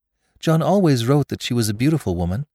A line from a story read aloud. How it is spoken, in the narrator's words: said Rebecca